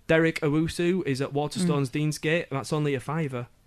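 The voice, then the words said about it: Mock Mancunian accent. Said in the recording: “Sorry for the Mancunian accent there... I have to mock”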